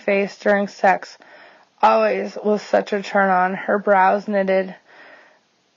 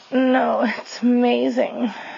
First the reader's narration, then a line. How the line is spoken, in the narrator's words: moans